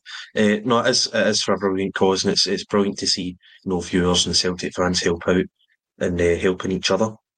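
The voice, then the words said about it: Strained, hoarse voice. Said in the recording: “my voice is going a bit”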